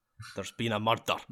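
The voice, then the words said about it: Dramatic line in Scottish accent. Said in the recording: “can you dramatically say "there's been a murder"? ... That's the best thing to say in a Scottish accent.”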